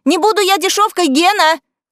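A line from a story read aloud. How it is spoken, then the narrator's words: Shouted while running. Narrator (Russian): крикнула на бегу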